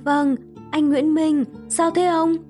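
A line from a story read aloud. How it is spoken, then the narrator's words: Trembling voice. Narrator (Vietnamese): Liên cất giọng run run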